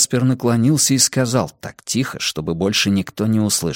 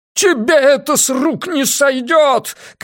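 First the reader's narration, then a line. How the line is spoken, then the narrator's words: Shouting. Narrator (Russian): кричал Ван Эк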